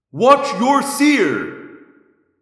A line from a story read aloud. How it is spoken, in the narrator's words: I yelled in bold thought speak